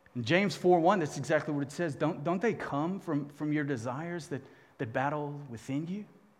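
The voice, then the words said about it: Loud, fired-up speaking voice. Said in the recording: “I'm so fired up right now ... my voice is 10 decibels too loud”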